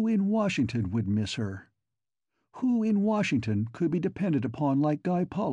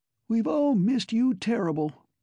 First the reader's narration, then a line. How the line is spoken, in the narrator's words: He squeaked